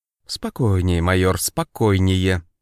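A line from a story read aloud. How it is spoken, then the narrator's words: Irritated mustached man, clenched teeth. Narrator (Russian): раздраженно цедит усатый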